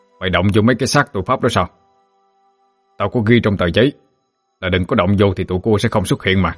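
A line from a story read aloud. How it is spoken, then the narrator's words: Angry. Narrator (Vietnamese): Quang Lửa tức giận nói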